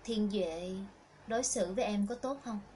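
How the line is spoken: Warm voice, hesitant tremor. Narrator (Vietnamese): Chần chừ một lúc, Thịnh Khải Luân lên tiếng với giọng nói ấm áp nhưng có thể nghe thấy cái sự run rẩy trong đó

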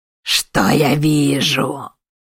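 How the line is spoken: Growling. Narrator (Russian): прорычал Они

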